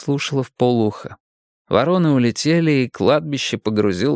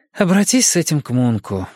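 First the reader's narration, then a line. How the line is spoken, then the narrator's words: Sighing. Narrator (Russian): вздохнула она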